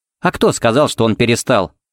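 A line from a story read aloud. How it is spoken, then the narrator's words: Snorting. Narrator (Russian): фыркнула Пепси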